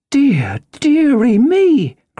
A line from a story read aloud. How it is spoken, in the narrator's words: cried my mother